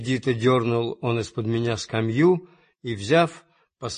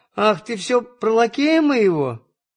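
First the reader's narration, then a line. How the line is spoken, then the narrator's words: Sudden laughter. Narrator (Russian): засмеялась вдруг Марья Тимофеевна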